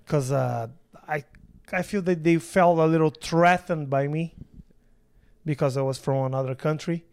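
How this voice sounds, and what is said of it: Foreign accent. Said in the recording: “this accent ... when you said threatened, you said it funny”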